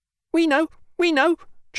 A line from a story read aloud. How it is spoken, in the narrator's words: chirped the sparrows